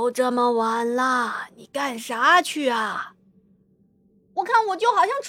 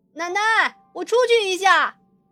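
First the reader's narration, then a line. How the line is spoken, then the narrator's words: Hurried call. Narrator (Chinese): 我赶紧冲着屋内跟我奶奶喊了一声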